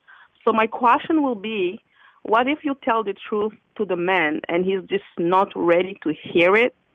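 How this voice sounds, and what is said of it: French accent speaking English. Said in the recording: “Sorry for my accent, because I'm French and I'm trying to speak in English.”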